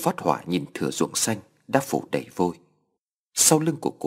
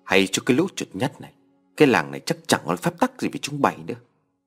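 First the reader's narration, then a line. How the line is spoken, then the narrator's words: Old man's throat-clearing shout. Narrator (Vietnamese): Cụ Thế hắng giọng quát to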